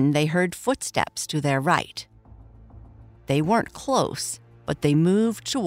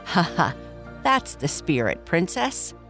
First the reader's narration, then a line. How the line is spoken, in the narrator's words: Araya laughed